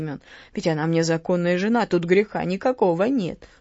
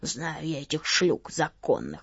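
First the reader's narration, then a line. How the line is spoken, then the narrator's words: Grumbling. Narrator (Russian): проворчал Савелий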